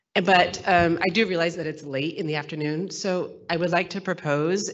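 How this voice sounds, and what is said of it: Sick voice from a cold. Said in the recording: “Sorry for my voice. I'm really sick... it's due to this cold”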